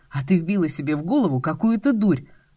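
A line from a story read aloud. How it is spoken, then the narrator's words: Bark. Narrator (Russian): Рявкнул Костя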